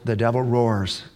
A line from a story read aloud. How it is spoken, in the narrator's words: God whispers